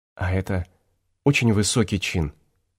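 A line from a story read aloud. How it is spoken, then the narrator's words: Timid question. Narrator (Russian): робко спросила Лариса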